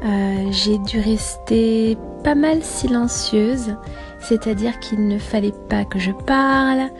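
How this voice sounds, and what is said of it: Changed, partly lost voice. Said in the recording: “my voice has changed a little bit ... I lost my voice.”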